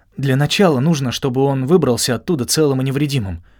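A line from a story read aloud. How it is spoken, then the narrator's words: Agitated remark. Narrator (Russian): взволнованно заметил я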